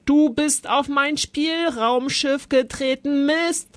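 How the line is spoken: Roared. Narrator (German): brüllte Zolli

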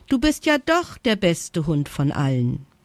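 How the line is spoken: Laughing praise. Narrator (German): lobte ihn Jana lachend

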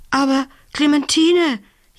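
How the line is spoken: Gasping. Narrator (German): japste sie

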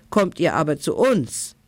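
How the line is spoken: Wild group calling. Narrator (German): rief die wilde Bande

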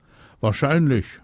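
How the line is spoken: Calling back. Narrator (German): ruft die zurück

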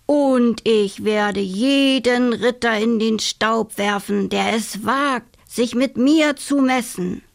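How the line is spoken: Disguised voice proclamation. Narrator (German): verkündete sie mit verstellter Stimme

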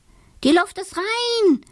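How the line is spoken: Called out. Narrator (German): ruft er

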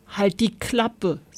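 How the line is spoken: Plain. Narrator (German): sagte Kevin

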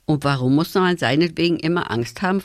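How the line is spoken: Plain. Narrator (German): fragte Tom

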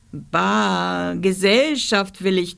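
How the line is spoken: Monstrous growl. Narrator (German): knurrte das Monster

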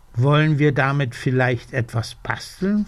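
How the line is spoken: Plain question. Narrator (German): fragt der Dachs

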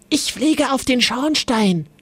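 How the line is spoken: Whispered. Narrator (German): wisperte Paul

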